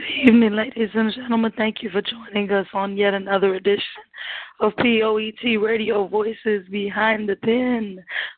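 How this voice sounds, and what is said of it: Hoarse voice. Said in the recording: “I'm a bit hoarse.”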